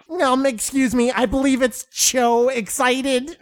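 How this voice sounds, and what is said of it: Imitates another person's voice. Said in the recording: “That's a good impression of Keith.”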